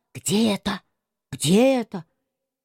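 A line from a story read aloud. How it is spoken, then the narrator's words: Very quiet whisper. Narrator (Russian): совсем шепотом сказал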